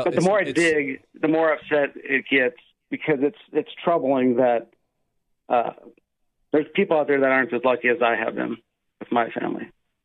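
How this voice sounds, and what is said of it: Emotional, strained voice. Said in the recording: “I'm getting a little emotional now”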